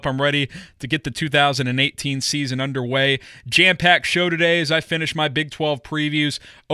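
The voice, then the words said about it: Excited, amped-up voice. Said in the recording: “I'm sure you can hear it in my voice. I am amped up.”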